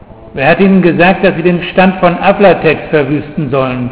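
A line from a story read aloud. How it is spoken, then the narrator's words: Plain. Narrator (German): sagte Beringer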